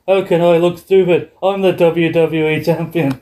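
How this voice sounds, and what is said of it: Bad Irish accent, Sheamus impression. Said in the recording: “My horrible Irish accent”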